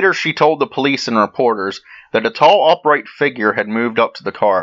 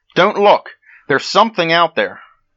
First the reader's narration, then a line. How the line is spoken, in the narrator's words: Betty Jean cried out to Anita